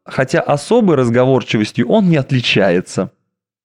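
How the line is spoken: Laughing. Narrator (Russian): засмеялась Вилла

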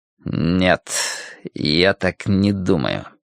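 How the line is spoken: Hoarse, barely restrained emotion. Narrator (Russian): произнес он хрипло, и за этим хрипом клокотали плохо скрываемые эмоции

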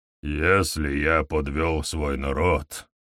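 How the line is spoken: Grim grumble. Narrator (Russian): мрачно проворчал Гаур

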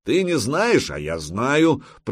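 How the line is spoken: Deep bass voice. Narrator (Russian): пробасил маленький тролль Хенрик

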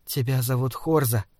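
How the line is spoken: Soft. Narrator (Russian): мягко сказала она

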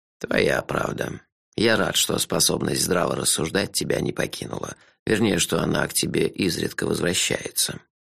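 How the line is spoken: Grumbling. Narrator (Russian): проворчал сэр Шурф

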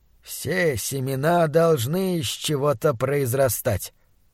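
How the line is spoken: Muttering. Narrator (Russian): пробормотал он

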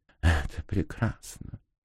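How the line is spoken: Muttering. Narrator (Russian): бормотала она

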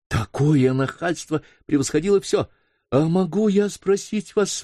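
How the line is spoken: Exclamation. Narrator (Russian): воскликнул Норбер Муани

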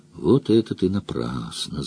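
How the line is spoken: Thoughtful chirping hummingbird. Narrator (Russian): задумчиво прощебетал третий, самый разумный калибри

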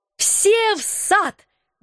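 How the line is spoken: Loud suggestion. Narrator (Russian): громко предложила я

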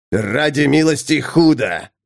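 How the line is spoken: Growling. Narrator (Russian): зарычал крошка

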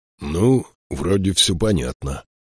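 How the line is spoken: Grumbled. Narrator (Russian): проворчал Эйстан

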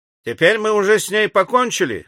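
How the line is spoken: Exclamation. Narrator (Russian): снова воскликнул Мастон

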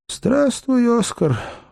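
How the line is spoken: Smiling. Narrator (Russian): улыбнулся человек

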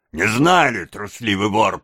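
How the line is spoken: Grumble. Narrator (Russian): проворчал Сайкс

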